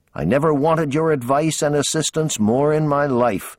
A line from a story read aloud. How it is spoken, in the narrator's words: pleaded